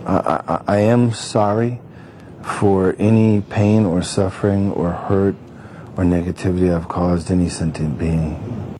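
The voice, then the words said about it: Steven Seagal, oddly foreign-sounding accent. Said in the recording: “His accent kind of changed a little bit here... when he talks about the Buddha nature... he's kind of foreign accent syndrome a little”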